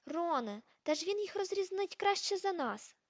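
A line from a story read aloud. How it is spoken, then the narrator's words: Exclamation. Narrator (Ukrainian): вигукнула Герміона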